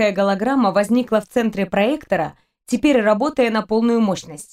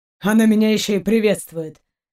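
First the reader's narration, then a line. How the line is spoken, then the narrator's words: Grumble. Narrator (Russian): проворчал Даллок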